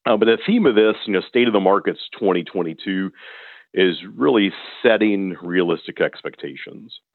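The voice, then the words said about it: Strained voice cutting in and out. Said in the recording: “My voice is going in and out. ... I had to drink a couple glasses of hot tea to get my voice where it is today.”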